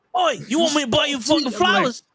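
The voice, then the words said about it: Aggressive put-on British accent. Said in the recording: “The aggressive British accent. I'm like, why are they mad?”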